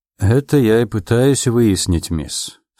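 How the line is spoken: Dry reply. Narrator (Russian): сухо ответил Селвин

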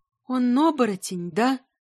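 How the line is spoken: Trembling question. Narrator (Russian): дрожащим голосом спросила Милава

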